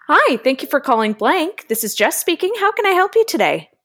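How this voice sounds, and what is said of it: Cheery customer-service phone voice. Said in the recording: “phone voice ... it's different than the podcast voice ... it's cheery ... I am so cheery on the phone”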